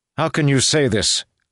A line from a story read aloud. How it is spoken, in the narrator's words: cried Alares in frustration